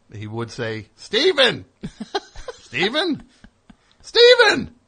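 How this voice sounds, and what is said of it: Cartoon character voice. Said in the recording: “a cartoon I do a voice on ... his dad, Greg”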